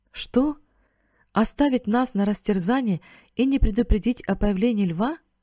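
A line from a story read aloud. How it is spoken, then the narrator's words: Exclaiming. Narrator (Russian): воскликнул Бен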